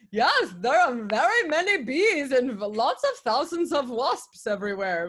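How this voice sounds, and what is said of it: Imitated Danish accent, poorly done. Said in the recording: “they were like from Denmark or something, so forgive my butchering their accent”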